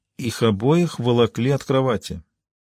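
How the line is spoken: Quiet. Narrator (Russian): тихо произнесла Риццоли

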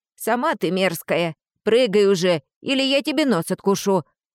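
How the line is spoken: Barking right in ear. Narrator (Russian): гаркнул мне в самое ухо Тирион

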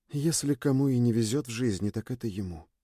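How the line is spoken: Whisper. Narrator (Russian): прошептала Сьюн

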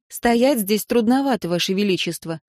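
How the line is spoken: Snorting. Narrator (Russian): Она фыркнула повторно

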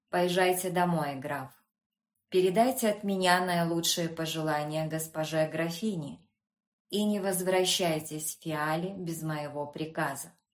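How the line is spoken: Pale, slightly disappointed tone. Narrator (Russian): совершенно побледнел и сказал слегка разочарованным тоном

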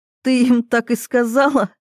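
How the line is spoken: Giggling. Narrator (Russian): хихикаю я

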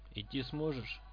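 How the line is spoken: Plain question. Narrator (Russian): спросил Фрак

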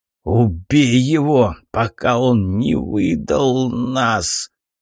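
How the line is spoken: Hoarse wheeze. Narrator (Russian): прохрипел тот

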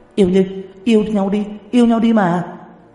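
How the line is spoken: Group of women shouting. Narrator (Vietnamese): Một đám hổ nữ hét to

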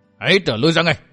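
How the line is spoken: Ringing shout. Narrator (Vietnamese): Mai Ánh Tuyết buông tiếng quát vang

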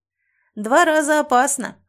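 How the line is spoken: Snorting smirk. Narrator (Russian): хмыкнул Кыс

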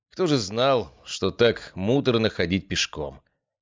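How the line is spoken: Wry snort. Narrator (Russian): хмыкнул я

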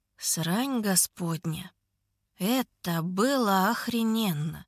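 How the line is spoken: Plain. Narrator (Russian): говорит он

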